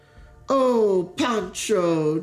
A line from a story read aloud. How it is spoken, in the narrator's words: Deke cried back, delighted